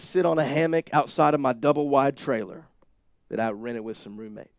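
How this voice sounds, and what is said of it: Sudden Southern US accent. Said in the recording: “my accent went southern all of a sudden when I said double-wide trailer.”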